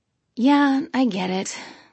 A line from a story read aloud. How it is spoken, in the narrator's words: I said, sighing